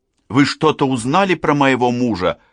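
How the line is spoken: Anxious question. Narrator (Russian): взволнованно спросила Ольга

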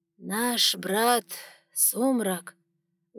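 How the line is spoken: Muffled voice, high priest. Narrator (Russian): глухим голосом вновь заговорил верховный жрец

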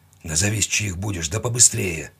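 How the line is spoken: Hoarse, tired, nervous. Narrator (Russian): Голос хриплый, уставший и нервный

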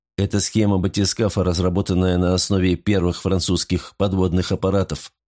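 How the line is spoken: Rapid chatter. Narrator (Russian): затараторил я

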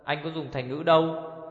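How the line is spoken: Angry. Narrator (Vietnamese): Ngu công tức giận

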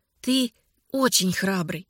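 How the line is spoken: Plain. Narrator (Russian): сказала она

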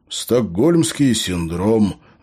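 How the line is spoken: Apologetic sigh. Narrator (Russian): вздохнул Фернандес, словно оправдываясь

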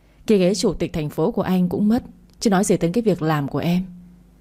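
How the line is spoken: Sighing. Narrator (Vietnamese): Đỗ Bình thở dài

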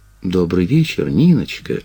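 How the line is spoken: Gentle, affectionate. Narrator (Russian): ласково сказала Крюкова

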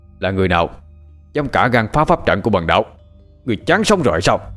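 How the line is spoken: Loud angry shout. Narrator (Vietnamese): Thấy có người muốn phá trận, tên đạo sĩ kia đứng trên đàn tràng quát lớn

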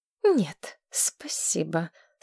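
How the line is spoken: Through clenched teeth. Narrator (Russian): сквозь зубы произнесла Мэтчин Садден

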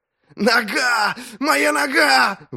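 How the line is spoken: Howling in pain. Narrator (Russian): взвыл он

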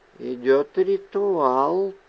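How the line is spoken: Whisper. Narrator (Russian): прошептала она

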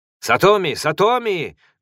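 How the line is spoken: Loud shout. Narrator (Russian): громко крикнул Кадзуо Инубо

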